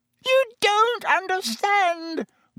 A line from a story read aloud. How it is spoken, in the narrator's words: whined Pettigrew